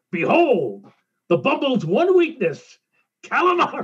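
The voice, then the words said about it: Imitates a cartoon character's voice. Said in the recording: “my imitation of Yukon Cornelius”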